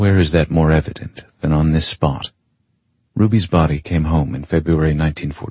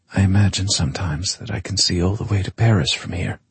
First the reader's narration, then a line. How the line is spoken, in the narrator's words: she murmurs